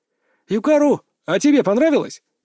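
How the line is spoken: Sudden shout. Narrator (Russian): крикнул вдруг Хару своему другу

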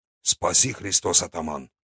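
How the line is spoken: Old man muttering. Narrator (Russian): Дед тут же буркнул

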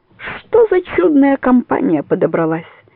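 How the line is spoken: Exclaimed. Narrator (Russian): воскликнул Соколов

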